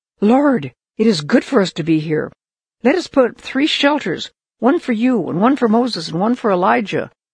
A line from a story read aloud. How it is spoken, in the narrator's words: he just blurted out